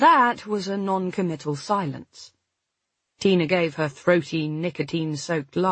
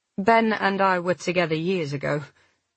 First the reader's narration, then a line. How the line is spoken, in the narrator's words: I said firmly